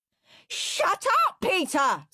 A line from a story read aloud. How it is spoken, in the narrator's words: screamed Henry